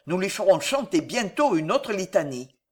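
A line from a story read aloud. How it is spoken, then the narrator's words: Growled. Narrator (French): grogna le vicomte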